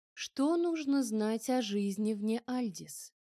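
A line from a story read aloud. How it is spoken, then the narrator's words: Lifeless flat voice, several speakers. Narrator (Russian): Безжизненным тоном, абсолютно ровным и безэмоциональным голосом вопрошали они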